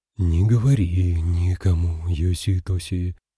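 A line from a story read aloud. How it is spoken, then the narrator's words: Deep singsong mutter. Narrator (Russian): пробормотал своим глубоким напевным голосом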